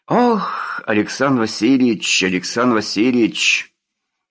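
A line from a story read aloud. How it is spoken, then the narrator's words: Fatherly scolding rumble. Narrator (Russian): Отеческим, журящим тоном гудел командир полка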